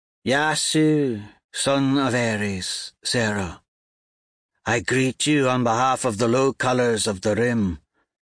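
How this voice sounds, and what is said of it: Slow, heavy, laconic accented voice. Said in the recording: “Her voice is slow, heavy with the laconic accent of the gas giants.”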